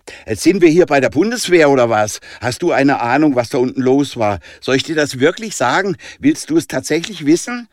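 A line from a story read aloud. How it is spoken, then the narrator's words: Loud, provocative call. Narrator (German): rief Jonah ziemlich laut und provozieren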